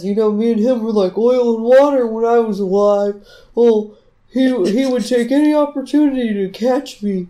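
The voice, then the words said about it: Character voice, slightly tenor pitch. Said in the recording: “giving him the voice that we give Fat Boy ... It's a little more of a tenor”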